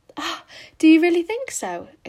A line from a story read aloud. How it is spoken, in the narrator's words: exclaimed Anne, flushing sensitively with delight